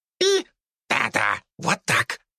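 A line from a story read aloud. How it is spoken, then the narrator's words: Squeaky rat voice. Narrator (Russian): пропищала крыса Лариса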